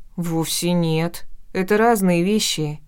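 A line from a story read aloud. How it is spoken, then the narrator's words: Spiteful grumble. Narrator (Russian): из вредности пробурчала я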